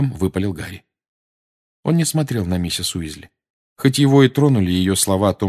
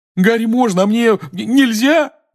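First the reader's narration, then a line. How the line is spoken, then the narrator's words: Wailing. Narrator (Russian): взвыл Рон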